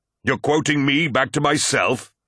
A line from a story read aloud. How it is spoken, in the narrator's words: said Horus, as the wind blew in howling gusts